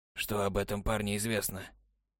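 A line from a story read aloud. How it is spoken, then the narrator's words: Muffled hollow question. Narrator (Russian): глухо спросил советник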